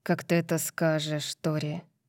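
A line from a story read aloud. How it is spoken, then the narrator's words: Rough voice. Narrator (Russian): сказал Калиб грубым голосом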